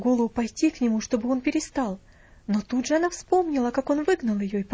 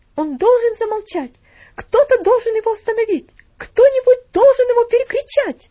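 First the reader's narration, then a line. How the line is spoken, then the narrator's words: Shouting. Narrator (Russian): закричала она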